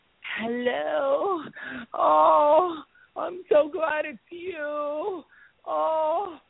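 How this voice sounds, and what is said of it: Anna Nicole Smith impression. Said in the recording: “his impression of Anna Nicole”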